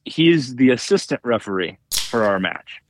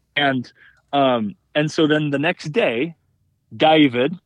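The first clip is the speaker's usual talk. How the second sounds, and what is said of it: Put-on Australian accent. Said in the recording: “there's my Aussie accent”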